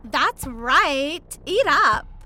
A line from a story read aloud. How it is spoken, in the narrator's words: she bellowed